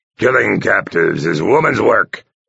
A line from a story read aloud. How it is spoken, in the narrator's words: he growled scornfully